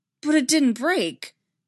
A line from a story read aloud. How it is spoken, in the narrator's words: Anakin blurted out